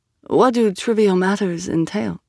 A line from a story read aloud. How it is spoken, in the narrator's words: Kapos sighed